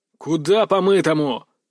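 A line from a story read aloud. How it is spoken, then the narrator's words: Barked. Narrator (Russian): рявкнул высокий, тощий парень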